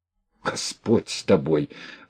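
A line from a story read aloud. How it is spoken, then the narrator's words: Quiet exclamation. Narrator (Russian): воскликнула Марья, но тоже негромко воскликнула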